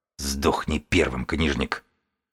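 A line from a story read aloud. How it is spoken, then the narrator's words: Hissing. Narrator (Russian): прошипел бегун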